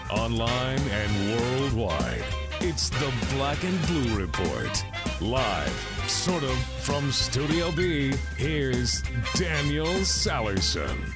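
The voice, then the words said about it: Deep announcer voice. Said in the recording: “deep voice man”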